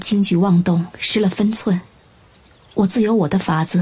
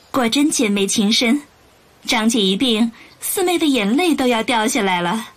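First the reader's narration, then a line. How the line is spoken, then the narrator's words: Faint smile. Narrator (Chinese): 玉隐 淡淡笑着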